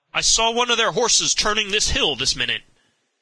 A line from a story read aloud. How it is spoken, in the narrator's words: a dragoon, he cried aloud